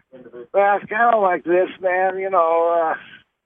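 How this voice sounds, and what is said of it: Imitated Missouri accent. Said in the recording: “I love that Missouri accent ... Is that a good imitation of Ron's accent?”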